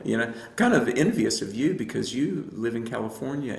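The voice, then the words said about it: Southern US accent. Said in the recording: “You probably can't tell from my accent, I'm joking, but I grew up in the South”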